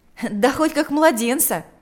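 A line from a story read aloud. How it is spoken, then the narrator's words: Laughing reply. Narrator (Russian): ответил мальчик, рассмеявшись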